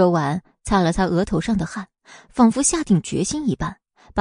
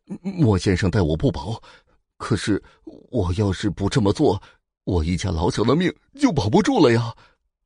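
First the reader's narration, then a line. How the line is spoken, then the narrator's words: Trembling, frightened voice. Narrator (Chinese): 司机满头都是冷汗，声音有些颤抖的说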